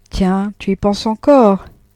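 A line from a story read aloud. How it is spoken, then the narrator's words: Distracted reply. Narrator (French): répondit Frédéric d'un ton distrait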